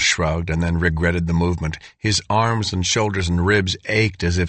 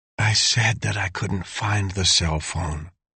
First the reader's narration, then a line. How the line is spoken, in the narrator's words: Dale said softly, so as not to aggravate the headache